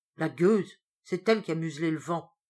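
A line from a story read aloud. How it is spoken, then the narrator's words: Grumbling. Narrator (French): bougonna Pierre Balanec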